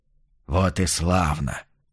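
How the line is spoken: Whisper. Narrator (Russian): прошептал Билли

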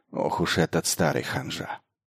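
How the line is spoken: Undertone. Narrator (Russian): И добавила вполголоса

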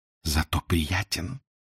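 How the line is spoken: Sultry whisper in ear. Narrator (Russian): жарко шепнула на ухо чаровница

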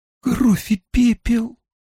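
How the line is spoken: Breathed out. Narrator (Russian): выдохнула она

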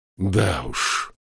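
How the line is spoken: Sighing. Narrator (Russian): Стривя вздохнул

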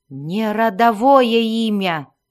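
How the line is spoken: Reluctant growl. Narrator (Russian): прорычал советник с большой неохотой

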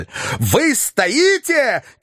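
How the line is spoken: Shouting. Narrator (Russian): кричал Филипп Филиппович

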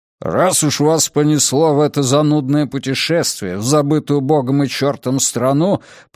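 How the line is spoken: Grumbling. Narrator (Russian): проворчал он

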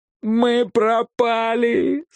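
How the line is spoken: Groaning in despair. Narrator (Russian): застонал Маквей

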